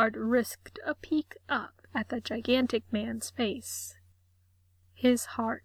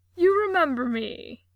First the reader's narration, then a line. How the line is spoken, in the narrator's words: Daryl exclaimed